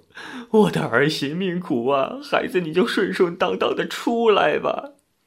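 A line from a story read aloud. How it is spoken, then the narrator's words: Old woman wailing, crying. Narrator (Chinese): 婆婆首先嚎叫起来，哭着说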